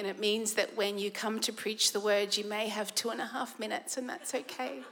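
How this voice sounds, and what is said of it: Sick, strained voice. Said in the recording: “please forgive my voice. My immune system needs a holiday.”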